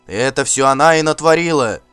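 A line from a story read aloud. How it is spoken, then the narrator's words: Crowd shouting. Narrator (Russian): кричали вокруг него хирдманы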